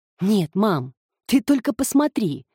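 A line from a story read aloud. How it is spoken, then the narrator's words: Exclaimed. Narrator (Russian): воскликнул он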